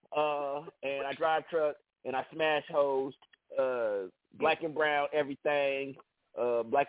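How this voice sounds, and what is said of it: Imitates another person's voice. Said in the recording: “I'm gonna act like Smoothie ... That was my smoothie dude impression.”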